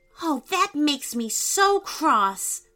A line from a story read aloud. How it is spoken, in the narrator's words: said Asher angrily